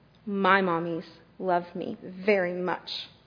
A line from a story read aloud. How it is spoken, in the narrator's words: said